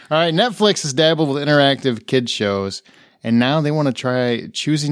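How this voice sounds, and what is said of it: Usual voice. Nothing is said of it.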